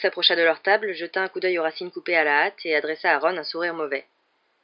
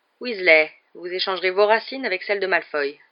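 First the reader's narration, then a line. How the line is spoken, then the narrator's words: Plain. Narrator (French): dit-il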